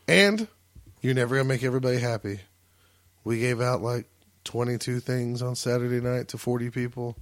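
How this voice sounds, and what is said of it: Hoarse, worn-out voice. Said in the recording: “I'm losing my voice ... Sounds like it.”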